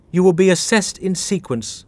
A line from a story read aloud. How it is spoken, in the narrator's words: said the woman, her tone both severe and strangely lifeless